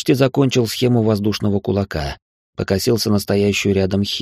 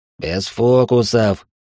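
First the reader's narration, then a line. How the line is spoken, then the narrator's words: Through gritted teeth. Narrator (Russian): процедил тот, что был с двумя револьверами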